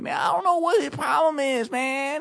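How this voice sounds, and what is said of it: Imitates another person's voice. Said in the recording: “a really good Nick Cannon impersonation ... That is Nick Cannon ... It sounded exactly like”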